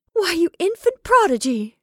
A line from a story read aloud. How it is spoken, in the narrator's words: she cried